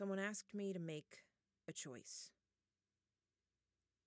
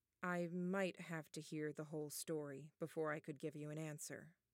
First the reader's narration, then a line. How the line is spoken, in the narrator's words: Annette said, her voice as calm as Taylor's wasn't